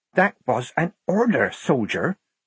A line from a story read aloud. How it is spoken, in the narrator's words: Polly whispered in her ear